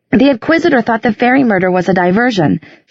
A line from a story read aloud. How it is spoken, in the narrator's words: she said quickly